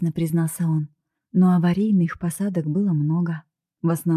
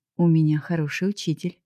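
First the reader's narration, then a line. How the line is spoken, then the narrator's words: Smirking grunt. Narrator (Russian): хмыкнул он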